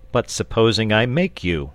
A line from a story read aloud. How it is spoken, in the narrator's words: said St